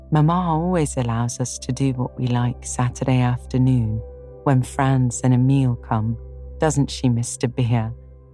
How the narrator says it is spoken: said Minnie

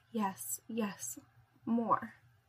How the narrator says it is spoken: She moans and says

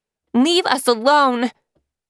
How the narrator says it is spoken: Lily shouted again

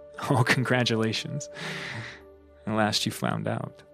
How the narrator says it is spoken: they'll laugh and say

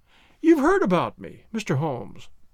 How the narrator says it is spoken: she cried

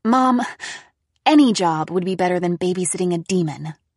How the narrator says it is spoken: I exclaimed

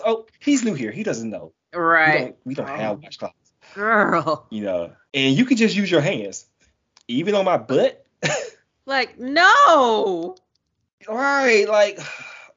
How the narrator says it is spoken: she scoffs and says

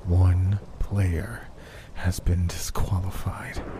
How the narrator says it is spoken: he said softly through gritted teeth while holding his laughter

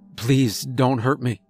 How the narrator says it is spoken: I stuttered

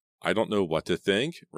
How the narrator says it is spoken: Randy replied in a trembling voice

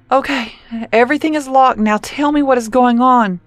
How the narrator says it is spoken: Cora begged

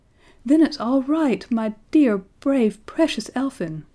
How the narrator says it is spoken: she cried

